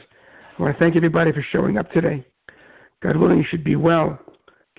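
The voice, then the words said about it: Tired, strained voice. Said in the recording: “give my voice a little rest ... I hope my voice will be better for tomorrow's class.”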